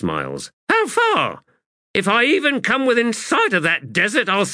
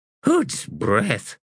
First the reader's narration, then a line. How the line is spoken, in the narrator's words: Smiles sighed